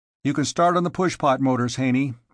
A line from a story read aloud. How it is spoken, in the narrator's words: said curtly